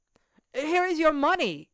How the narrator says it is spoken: the servant called out after him

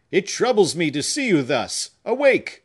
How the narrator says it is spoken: He spoke loudly, with terror in his voice, and close to that delicate ear

